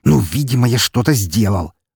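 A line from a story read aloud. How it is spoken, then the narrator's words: Angry hiss. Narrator (Russian): зло прошипел Рахманов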